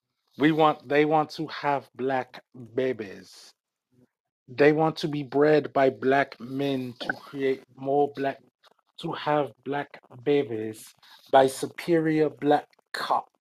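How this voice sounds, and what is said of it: Put-on accent, done convincingly. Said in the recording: “You nailed the accent perfectly.”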